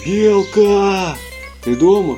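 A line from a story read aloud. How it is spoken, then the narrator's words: Animals shouting in chorus. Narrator (Russian): хором закричали ежик, медвежонок и заяц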